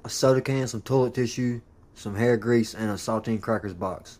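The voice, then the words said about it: Rough prison-style accent. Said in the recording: “What accent is this? ... prison ... Accent.”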